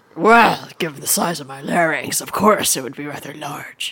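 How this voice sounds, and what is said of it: Deep character voice. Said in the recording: “Oh, I like a good deep voice.”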